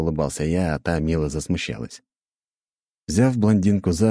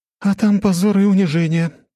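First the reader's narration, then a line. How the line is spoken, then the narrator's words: Groaning. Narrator (Russian): простонала Анна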